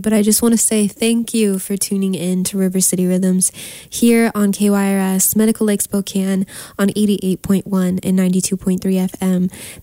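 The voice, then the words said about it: Slightly nasal, congested voice. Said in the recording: “I am recovering from a nasty flu, so I sound a little nasally”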